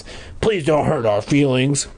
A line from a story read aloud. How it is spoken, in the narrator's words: Chip rasped